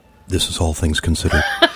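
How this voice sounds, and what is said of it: Imitated NPR announcer voice. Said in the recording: “That's her NPR voice ... His NPR voice kicks mine.”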